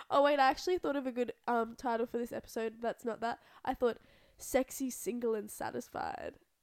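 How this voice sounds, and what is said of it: Croaky, congested voice. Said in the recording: “My voice sounds really gross because I'm kind of sick ... I'm, like, coming off being sick ... I've just got, like, that gross, like, croaky, congested”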